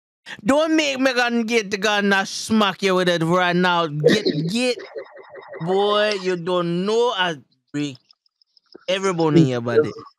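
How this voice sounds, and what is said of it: Put-on Jamaican accent. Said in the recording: “You ever get so mad you start speaking in Jamaican accent?”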